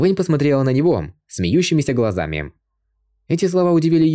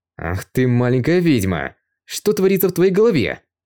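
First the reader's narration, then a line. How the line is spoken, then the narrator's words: Through teeth, mock anger. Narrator (Russian): Он сквозь зубы с притворной злостью сказал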